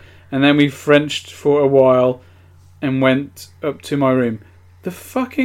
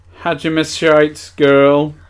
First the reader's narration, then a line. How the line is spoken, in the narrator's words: She said happily